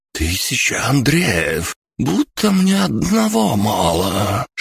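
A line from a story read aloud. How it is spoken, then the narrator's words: Shocked hiss. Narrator (Russian): шокированно прошипел Борис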